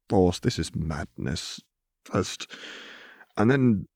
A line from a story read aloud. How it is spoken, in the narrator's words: groaned into his hands